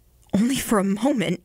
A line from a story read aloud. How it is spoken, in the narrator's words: he replied with a glad laugh